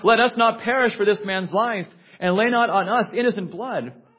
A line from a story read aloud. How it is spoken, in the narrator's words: The mariners cried out